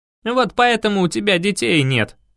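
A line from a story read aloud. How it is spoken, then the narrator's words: Scoffing grunt. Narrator (Russian): хмыкнул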